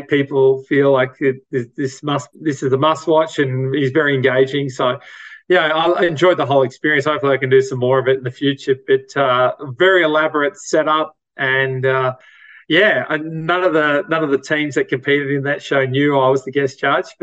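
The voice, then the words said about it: Australian accent. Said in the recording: “the Australian accent gave it away a little bit”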